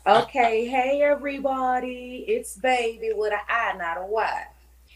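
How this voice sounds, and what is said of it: Polished radio announcer voice. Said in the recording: “You got that radio voice.”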